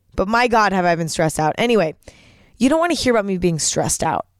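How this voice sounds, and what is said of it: Tired, worn-out voice. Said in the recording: “that kind of explains the reason why my voice sounds like this. I am so tired.”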